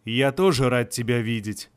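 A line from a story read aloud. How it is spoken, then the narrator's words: Deep chest voice, thunderous music. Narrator (Russian): ответил советник грудным голосом, сопровождаемый громовой музыкой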